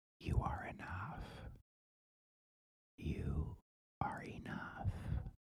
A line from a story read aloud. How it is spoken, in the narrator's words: whispers